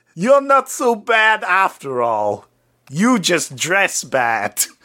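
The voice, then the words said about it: Put-on New York accent, Schwarzenegger-like. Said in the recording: “in his New York accent ... I like how your New York accent is Arnold Schwarzenegger”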